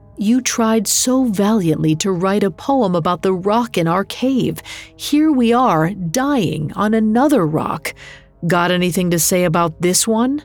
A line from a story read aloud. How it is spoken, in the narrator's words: Galar laughed through his tears